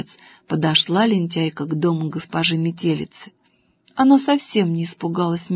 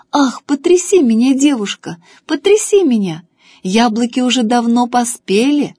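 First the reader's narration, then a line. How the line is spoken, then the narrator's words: Apple tree calling out. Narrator (Russian): Яблоня крикнула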